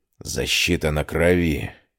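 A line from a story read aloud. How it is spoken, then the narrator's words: Breathless disbelief. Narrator (Russian): выдохнул мужчина так, словно не верил собственным глазам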